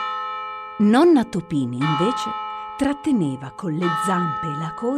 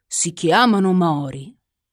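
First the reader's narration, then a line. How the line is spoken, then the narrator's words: Plain. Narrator (Italian): disse papà Topin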